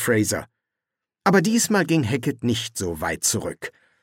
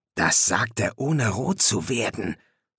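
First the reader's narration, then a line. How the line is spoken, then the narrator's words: Whispered. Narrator (German): flüsterte Louis Fraser zu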